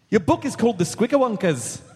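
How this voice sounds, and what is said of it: Attempted Scottish accent, sounds Irish. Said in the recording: “only try Scottish ... Nope, that's Irish.”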